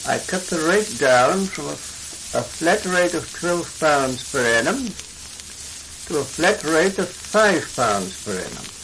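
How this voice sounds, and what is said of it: RP English accent, not Australian. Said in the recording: “you can really hear the RP all the way through it, and in fact probably doesn't sound Australian at all”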